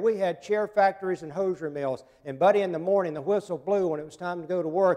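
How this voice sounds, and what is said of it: North Carolina Southern accent. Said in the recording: “I'm a North Carolinian, in case you can't figure it out. I don't think the accent's totally gone yet.”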